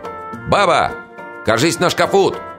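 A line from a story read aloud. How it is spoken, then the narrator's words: Shouting. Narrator (Russian): крикну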